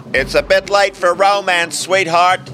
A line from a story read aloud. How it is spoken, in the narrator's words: Tony yelled